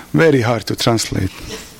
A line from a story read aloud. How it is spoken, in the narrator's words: she said, still chuckling